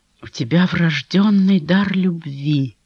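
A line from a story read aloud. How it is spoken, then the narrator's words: Quiet, confiding. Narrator (Russian): тихо, словно по секрету сказал он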